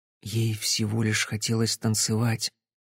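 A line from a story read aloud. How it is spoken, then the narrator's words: Quiet. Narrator (Russian): тихо сказала Кэсси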